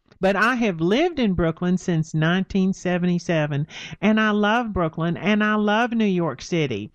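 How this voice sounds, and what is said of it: Texan Southern accent. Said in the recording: “maybe you can tell by my accent, but I'm not from Brooklyn... I came up here from Texas”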